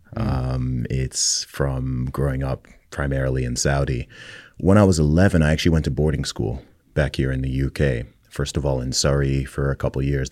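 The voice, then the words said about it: Non-British accent. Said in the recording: “my accent confuses everybody because I've never actually had a British accent”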